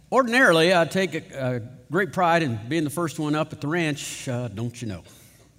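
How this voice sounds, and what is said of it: Put-on rural ranch accent. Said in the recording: “I'll be using my ranch accent for effect.”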